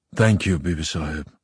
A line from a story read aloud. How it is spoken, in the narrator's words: Father muttered